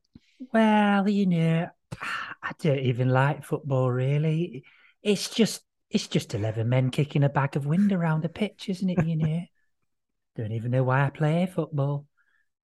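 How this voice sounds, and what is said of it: Imitates another person's voice. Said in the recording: “I do that Mark Lawrenson voice?”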